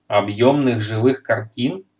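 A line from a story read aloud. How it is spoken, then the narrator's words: Plain. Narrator (Russian): спросил Майгин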